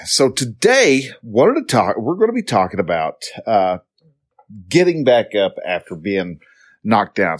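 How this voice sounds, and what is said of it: Slightly congested, sniffly voice. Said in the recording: “If you hear me sniffling ... I'm slightly congested ... I sound a little weird.”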